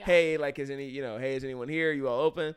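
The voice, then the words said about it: Louder but polite call. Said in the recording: “raise my voice a little bit louder, but in a still very polite way”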